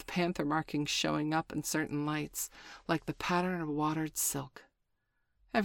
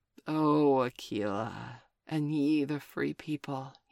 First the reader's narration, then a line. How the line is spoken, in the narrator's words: he purred